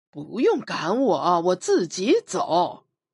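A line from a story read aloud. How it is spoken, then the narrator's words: Sarcastic. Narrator (Chinese): 我讽刺地说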